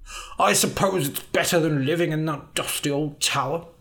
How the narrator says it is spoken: Elric muttered

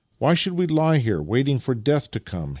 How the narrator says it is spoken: he exclaimed as a new idea suddenly struck him

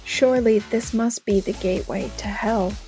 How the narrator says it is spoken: he whispered

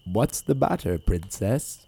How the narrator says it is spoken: said a voice

